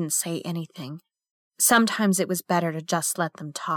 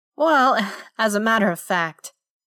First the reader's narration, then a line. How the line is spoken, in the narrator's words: he said with a little chuckle